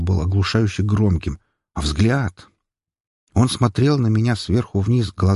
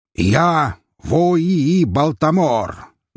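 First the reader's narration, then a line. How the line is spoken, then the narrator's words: Loud answer. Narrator (Russian): громко ответил он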